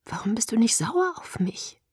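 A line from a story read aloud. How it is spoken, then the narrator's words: Whispered. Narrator (German): flüsterte ich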